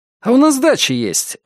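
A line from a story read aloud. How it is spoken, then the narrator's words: Joyful sudden recollection. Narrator (Russian): радостно спохватился Матвей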